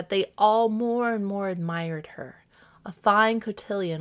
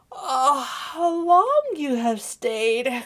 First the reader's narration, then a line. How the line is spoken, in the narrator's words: cried she, gaping, rubbing her eyes, and stretching herself as if she had been just waked out of her sleep